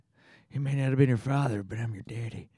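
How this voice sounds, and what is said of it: Movie character line impression. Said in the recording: “It's a great impression.”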